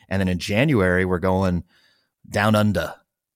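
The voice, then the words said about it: Bad put-on Australian accent. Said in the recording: “That was a very terrible Australian accent. ... was that a Kiwi accent? Did I do a Tassie accent? ... Maybe a Bogan version of Australian accent.”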